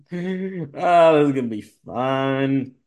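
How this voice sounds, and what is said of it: Sarcastic tone. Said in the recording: “I say it sarcastically.”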